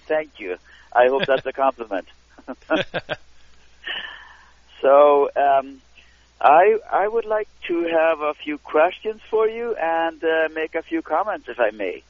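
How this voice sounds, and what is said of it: Canadian accent. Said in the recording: “You definitely got that Canadian accent.”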